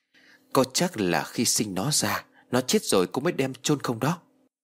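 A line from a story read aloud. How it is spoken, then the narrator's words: Soft, after pondering. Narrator (Vietnamese): Cô Miện trầm ngâm một hồi rồi khẽ đáp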